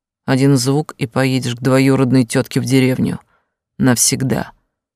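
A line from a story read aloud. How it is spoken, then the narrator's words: Deafening bark. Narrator (Russian): рявкнул так, что у меня самой уши заложило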